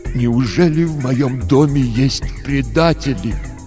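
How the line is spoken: Tragic voice. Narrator (Russian): отец сказал трагическим голосом

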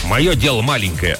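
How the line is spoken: Snapping back. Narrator (Russian): огрызнулся сторож

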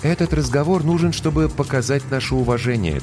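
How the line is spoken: Calm reply. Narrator (Russian): также спокойно отозвалась капитан

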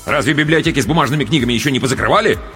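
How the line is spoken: Angry interjection, father. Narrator (Russian): сердито вмешался отец

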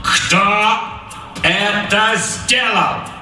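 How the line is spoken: Loud clipped words. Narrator (Russian): Громко чеканил капрал

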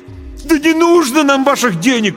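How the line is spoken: Desperate shout. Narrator (Russian): крикнул я с отчаянием

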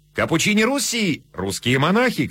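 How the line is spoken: Shouting crowd. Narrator (Russian): кричали в толпе

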